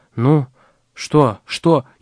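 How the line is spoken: Frightened whisper, question. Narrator (Russian): испуганным шепотом спросила Вера Ивановна

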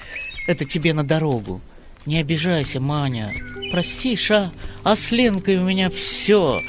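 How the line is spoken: Desperate, sad voice. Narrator (Russian): отчаянно и грустно сказал

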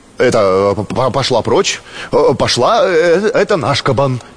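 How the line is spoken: Plain. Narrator (Russian): сказал ткач

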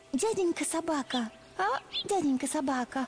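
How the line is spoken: Timid female voice. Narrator (Russian): Робко начала она

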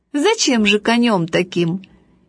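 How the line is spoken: Cheerful, laughing. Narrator (Russian): отец очень веселый сказал, смеясь

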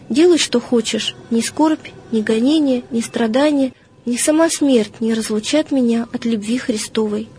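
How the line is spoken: Calm reply. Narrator (Russian): Феодор спокойно отвечал

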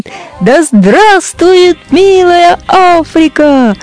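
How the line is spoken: Loud shout. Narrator (Russian): Айболит … и громко кричит

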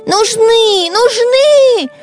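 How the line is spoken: Shouting. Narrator (Russian): закричала Белочка

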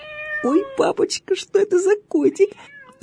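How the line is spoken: Delighted girl's squeal. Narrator (Russian): завизжала от восторга девочка

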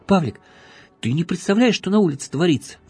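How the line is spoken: Excited exclamation. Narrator (Russian): возбужденно воскликнул он

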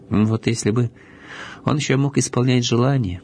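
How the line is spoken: Sighing. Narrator (Russian): вздохнул Мишутка

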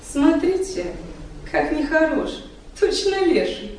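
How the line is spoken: Exclaiming in Romani. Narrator (Russian): Непосредственная цыганка Таня Демьянова, увидав африканские черты поэта, даже воскликнула по-цыгански

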